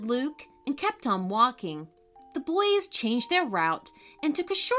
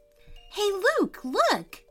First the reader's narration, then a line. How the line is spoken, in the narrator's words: exclaimed Jack in surprise